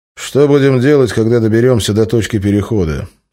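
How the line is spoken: Plain question. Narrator (Russian): спросил он рентгена

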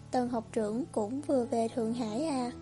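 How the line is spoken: Soft sighing. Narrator (Vietnamese): Hồng Đậu khẽ than thở

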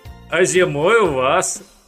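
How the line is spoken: Laughing. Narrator (Russian): засмеялся Перхуша

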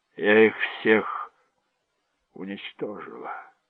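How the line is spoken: Dull muffled voice. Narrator (Russian): сказала она глухо

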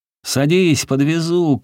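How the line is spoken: Cheerful shout. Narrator (Russian): крикнула она весело

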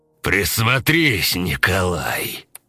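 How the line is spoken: Growled close to ear. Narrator (Russian): прорычал Влас, наклоняясь к самому уху Коли

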